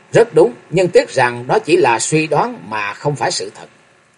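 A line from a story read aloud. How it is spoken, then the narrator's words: Cold reply. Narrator (Vietnamese): Lãnh Nhất Phàm lạnh lùng đáp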